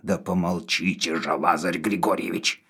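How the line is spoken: Through gritted teeth. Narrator (Russian): сказал сквозь зубы Навага

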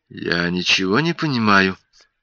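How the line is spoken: Muttering. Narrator (Russian): пробормотал Альберт

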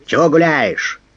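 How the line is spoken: Barked from dark passage. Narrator (Russian): рявкнули из темного прохода

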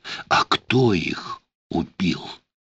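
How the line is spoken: Quiet question. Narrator (Russian): спросила тихо Ула

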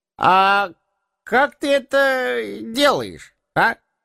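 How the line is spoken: Deliberately drunk-sounding voice. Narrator (Russian): поинтересовался он нарочито пьяным голосом

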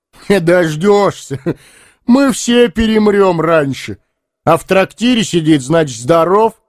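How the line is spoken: Loud guffaw. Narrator (Russian): захохотал Лаган

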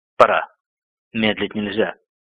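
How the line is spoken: Whispered. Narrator (Russian): Шах прошептал

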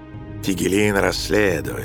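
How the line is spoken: Mumbling. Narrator (Russian): забормотал Нерон

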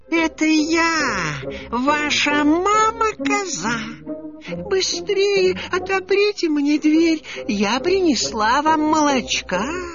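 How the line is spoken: Thin high disguised voice. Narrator (Russian): сказал волк тоненьким голосом

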